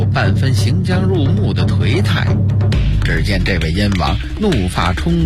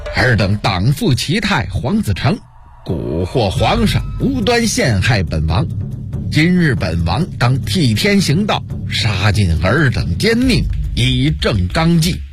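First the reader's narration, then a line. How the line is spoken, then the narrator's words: Stern shout. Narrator (Chinese): 朱棣厉声喝道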